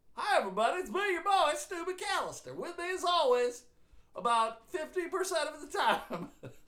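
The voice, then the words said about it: Put-on folksy radio voice. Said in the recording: “Why are you talking like that? This is my radio voice ... You sound like you live in Mayberry.”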